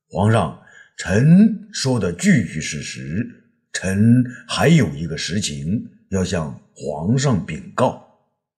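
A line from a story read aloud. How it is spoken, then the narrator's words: Slow, calm. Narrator (Chinese): 霍光啊，并不与他争辩，却慢慢的说道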